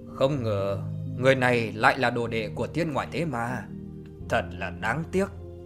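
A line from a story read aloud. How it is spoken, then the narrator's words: Regretful muttering. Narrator (Vietnamese): Thạch Kiếm lẩm bẩm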